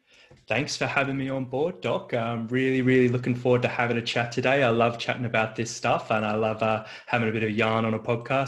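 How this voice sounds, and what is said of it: Australian accent, sometimes sounds English. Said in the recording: “you don't seem to have an American accent ... I'm down in Sydney, Australia ... did you grow up in England ... my Australian accent isn't so good sometimes”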